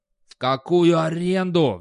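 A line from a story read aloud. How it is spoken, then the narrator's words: Roared. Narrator (Russian): взревел Достабль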